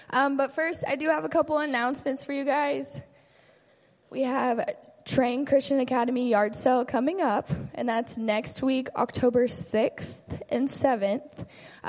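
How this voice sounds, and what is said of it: Slightly raspy voice. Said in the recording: “my voice is a little raspy,”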